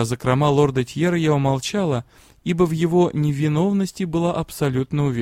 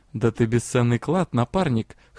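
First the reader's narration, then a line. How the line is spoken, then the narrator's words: Chuckling. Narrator (Russian): хохотнул дроу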